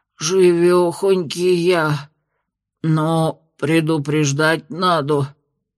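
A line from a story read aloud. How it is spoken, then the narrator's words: Muffled grumble, house spirit. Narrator (Russian): глухо буркнул домовой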